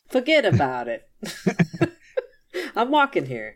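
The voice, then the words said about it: Put-on New Jersey/Staten Island accent. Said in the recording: “the Jersey accent that people think is really a Staten Island accent, which is kind of like this weird mishmash between New Jersey and New York”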